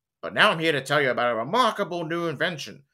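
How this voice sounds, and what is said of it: Impression of Troy McClure. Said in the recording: “do an impression of Troy McClure ... He voiced Lionel Hutz and Troy McClure on The Simpsons”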